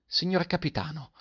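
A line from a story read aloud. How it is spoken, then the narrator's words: Astonished boy's exclamation. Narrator (Italian): esclamò il ragazzo meravigliato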